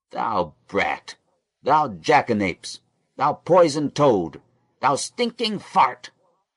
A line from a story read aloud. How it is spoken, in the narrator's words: roared Simeon and Levi both at once